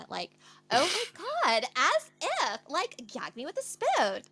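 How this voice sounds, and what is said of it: Put-on Valley Girl accent. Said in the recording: “I love doing the Valley Girl accent.”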